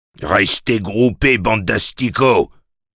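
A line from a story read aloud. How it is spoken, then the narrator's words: Bellowed. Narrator (French): vociféra-t-il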